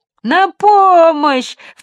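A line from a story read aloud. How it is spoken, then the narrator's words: Shouted. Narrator (Russian): в третий раз крикнул джип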